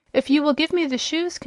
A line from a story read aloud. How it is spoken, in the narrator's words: continued the boy anxiously